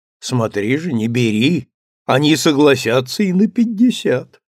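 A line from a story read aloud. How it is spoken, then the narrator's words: Laughing. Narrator (Russian): Эмир засмеялся и сказал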